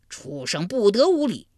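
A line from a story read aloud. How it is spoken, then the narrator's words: Thunderous roar. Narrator (Chinese): 他这一吼如晴天响了一声霹雳，震得山摇地动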